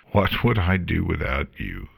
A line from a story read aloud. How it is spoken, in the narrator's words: Morta chuckled